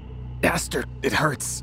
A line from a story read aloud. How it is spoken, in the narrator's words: wheezed out